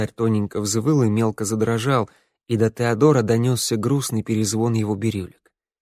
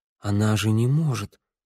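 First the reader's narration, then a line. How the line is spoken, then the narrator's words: Muttered. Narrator (Russian): пробормотал Тео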